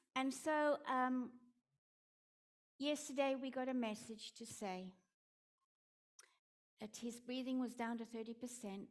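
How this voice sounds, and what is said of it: Afrikaans accent. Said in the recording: “my Afrikaans accent”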